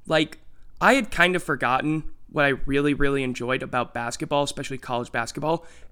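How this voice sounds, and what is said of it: Slightly raspy voice. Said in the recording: “sorry for my voice. It's a little bit raspy because I was yelling a lot last night”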